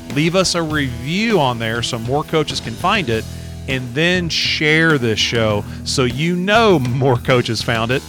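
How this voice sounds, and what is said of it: Kentucky accent. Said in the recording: “this intoxicating Kentucky accent”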